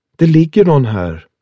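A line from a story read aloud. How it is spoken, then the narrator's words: Calling out. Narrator (Swedish): ropade hon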